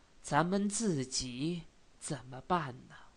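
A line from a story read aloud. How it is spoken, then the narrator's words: Angry, hoarse, strained. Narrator (Chinese): 瑞全因为气愤，话虽然说的不很多，可是有点声嘶力竭的样子，心中也仿佛很乱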